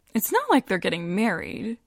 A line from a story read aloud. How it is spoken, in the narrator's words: Joanna says with a breezy laugh